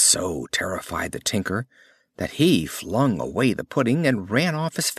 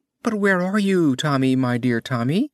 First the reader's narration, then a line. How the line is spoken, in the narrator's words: cried out his mother